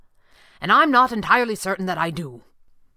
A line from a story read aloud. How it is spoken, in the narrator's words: he had blurted out crossly and without really thinking